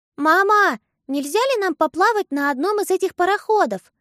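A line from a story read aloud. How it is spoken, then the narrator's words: Loud, meant to be overheard. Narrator (Russian): громко спросила Агата, так, чтобы леди Клара слышала ее из своей комнаты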